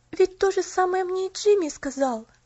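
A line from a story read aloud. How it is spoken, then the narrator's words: Exclaiming. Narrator (Russian): воскликнула она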